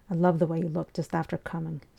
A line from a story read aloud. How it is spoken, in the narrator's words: she murmured afterwards